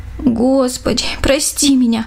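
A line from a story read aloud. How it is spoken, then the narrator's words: Pleading prayer. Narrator (Russian): взмолилась Даша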